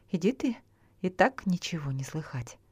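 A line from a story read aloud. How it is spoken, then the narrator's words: Dismissive exclamation. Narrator (Russian): Тот, что спиной к нему стоял, воскликнул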